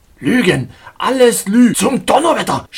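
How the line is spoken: Shouted. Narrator (German): schrie

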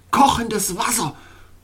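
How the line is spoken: Groaning. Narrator (German): stöhnte Glacier Boy

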